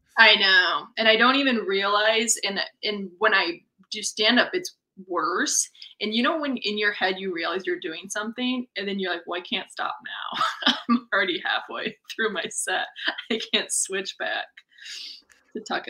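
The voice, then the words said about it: Folksy Wisconsin-style American accent. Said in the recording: “the weird Wisconsin accent ... I like your accent, but it's very folksy, and when people hear it, they're like, that's Wisconsin.”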